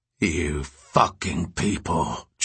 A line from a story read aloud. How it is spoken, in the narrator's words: Jude snarled